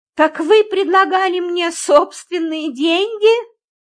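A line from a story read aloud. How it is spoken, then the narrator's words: Exclaiming. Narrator (Russian): воскликнула я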